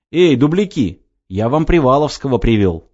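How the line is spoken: Shout. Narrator (Russian): крикнул Кеша

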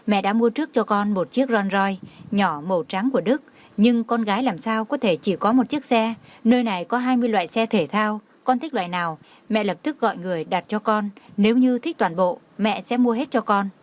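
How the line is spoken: Smiling. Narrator (Vietnamese): Ân Nguyệt Dung mỉm cười nói

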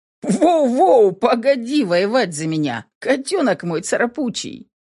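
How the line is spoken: Laughing. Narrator (Russian): Рассмеялся Ронан

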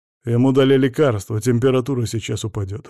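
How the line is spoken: Gloomy. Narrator (Russian): мрачно сказал Сажин

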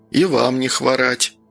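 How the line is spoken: Dry reply. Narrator (Russian): сухо ответил медик

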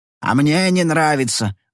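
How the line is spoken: Yelling. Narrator (Russian): заорал он

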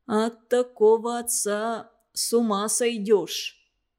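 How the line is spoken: Plain. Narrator (Russian): сказал Митя

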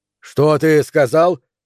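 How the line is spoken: Sudden bark. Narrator (Russian): неожиданно рявкнул Нейл

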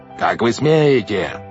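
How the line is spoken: Yelled. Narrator (Russian): заорал Стефано

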